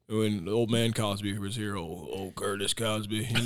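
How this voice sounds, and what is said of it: Really deep voice. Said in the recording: “doing the really deep voice”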